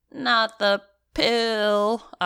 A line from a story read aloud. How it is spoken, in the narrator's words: I whined